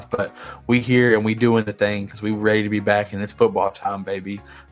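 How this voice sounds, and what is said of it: Raspy, rough voice. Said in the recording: “if I sound a little raspy. ... my throat's been a little rough ... Next time I come on here, I'll sound a lot better”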